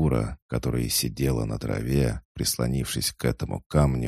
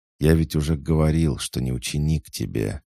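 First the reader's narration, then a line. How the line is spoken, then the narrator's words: Calm, gentle objection. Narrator (Russian): без нажима спокойно возразил Хаджар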